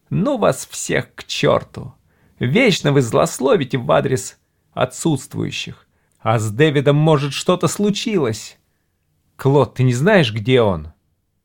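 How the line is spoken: Whiny, tearful voice. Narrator (Russian): Валерий Шмерль произнес, как всегда, плаксивым голосом

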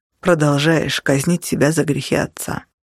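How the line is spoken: Even voice. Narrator (Russian): ровным голосом ответил он

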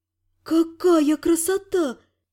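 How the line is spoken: Dreamy purr. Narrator (Russian): мечтательно промурлыкала Элька

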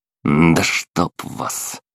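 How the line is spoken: Muttered. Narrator (Russian): пробормотал я

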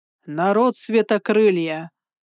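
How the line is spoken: Thundering ground-shaking voice. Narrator (Russian): прогремел голос, от которого задрожала земля

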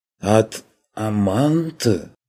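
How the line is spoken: Indistinct shocked lisping. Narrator (Russian): Не очень внятно шепелявит потрясенный бог

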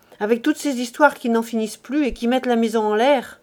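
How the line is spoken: Curt. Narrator (French): dit-elle sèchement

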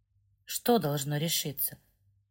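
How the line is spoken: Whispered. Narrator (Russian): прошептал священник

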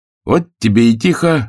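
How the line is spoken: Lively cheerful exclamation. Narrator (Russian): оживленно и даже весело воскликнул Левашов, когда над их головами провизжал первый снаряд

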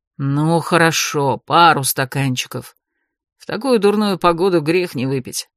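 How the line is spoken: Grumbling. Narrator (Russian): пробурчал Эрик

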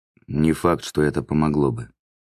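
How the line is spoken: Detached tone. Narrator (Russian): ответил Велен отрешенным тоном

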